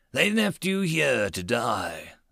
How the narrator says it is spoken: the big black biped rumbled in overspeech

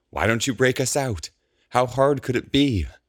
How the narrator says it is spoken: Norell sighs

